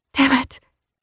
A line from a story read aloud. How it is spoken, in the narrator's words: I whispered